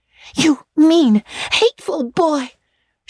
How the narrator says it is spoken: she exclaimed passionately

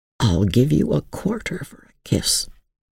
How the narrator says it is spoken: he whispered genially

